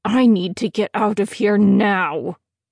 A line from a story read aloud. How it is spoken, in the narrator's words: growl through clenched teeth